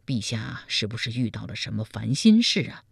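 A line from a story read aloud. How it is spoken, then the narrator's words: Concerned question. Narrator (Chinese): 赵普关切地问道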